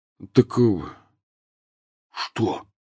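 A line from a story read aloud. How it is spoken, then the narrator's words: Very quiet, fearful question. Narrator (Russian): Очень тихо, словно боясь, что их может подслушать мебель спальни, спросил Рон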